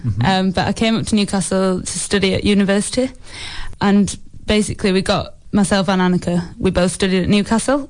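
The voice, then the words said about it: South Yorkshire English accent. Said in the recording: “I detect an accent there, which is from slightly south of Newcastle there ... I'm from South Yorkshire”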